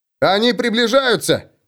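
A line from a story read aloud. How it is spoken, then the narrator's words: Shouting. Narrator (Russian): закричал он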